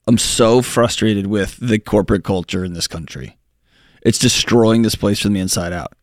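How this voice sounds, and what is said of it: Frustrated, heated delivery. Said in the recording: “any frustration you hear in my voice”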